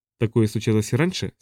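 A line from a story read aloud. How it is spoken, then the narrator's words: Plain question. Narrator (Russian): спросила я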